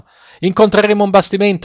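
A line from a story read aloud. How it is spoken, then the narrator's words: Sailors shouting together. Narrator (Italian): gli gridarono i marinai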